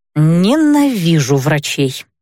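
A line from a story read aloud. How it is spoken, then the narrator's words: Through gritted teeth. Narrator (Russian): сквозь зубы процедила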